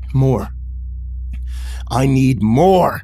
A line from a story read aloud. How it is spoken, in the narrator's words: he said in a deep, angry voice, clenching his teeth and grinding them afterwards